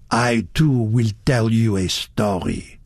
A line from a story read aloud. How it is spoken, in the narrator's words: he said thickly